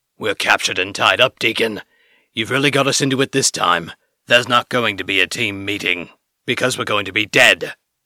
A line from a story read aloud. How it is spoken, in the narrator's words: Suther growled, still fruitlessly struggling against his restraints